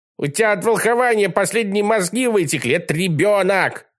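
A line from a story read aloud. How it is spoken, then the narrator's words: Yelling. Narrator (Russian): орал Колобок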